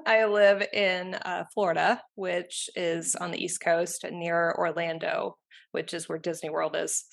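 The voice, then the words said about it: American accent. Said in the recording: “as you can hear from my accent, I'm in the United States”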